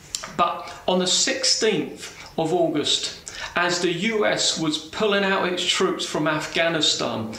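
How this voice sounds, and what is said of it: British accent. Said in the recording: “The guy has a British accent”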